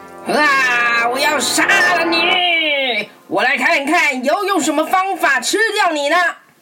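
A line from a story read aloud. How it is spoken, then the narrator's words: Frightened question. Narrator (Chinese): 渔夫害怕的问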